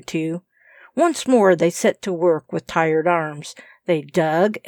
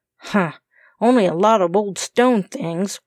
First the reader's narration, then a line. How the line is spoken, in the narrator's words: growled Tom